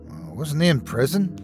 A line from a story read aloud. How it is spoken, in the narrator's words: my dad whispered